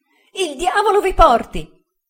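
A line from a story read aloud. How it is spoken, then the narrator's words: Shout of pain. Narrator (Italian): gridò Uriah, contorcendosi dal dolore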